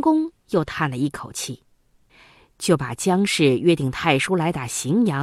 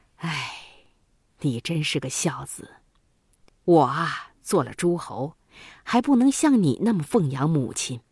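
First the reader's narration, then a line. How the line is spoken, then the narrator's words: Sighing. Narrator (Chinese): 郑庄公叹了一口气，说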